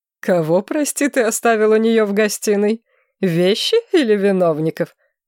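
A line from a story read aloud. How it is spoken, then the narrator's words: King laughing. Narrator (Russian): рассмеялся король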